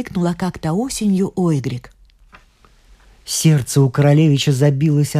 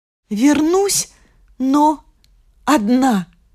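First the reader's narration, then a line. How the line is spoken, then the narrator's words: Sorrowful exclamation. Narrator (Russian): горестно воскликнула Ойгрик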